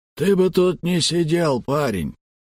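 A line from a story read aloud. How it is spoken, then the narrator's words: Hoarse voice. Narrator (Russian): сиплый голос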